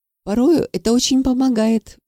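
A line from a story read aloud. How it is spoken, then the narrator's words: Sighing. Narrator (Russian): вздохнул Павлов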